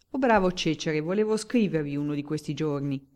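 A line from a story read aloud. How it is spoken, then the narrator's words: Plain. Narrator (Italian): disse il barone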